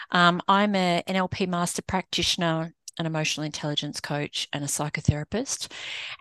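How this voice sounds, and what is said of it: Australian accent. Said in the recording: “As you can tell from the accent, that's not quite yet Americanized. I'm an Aussie”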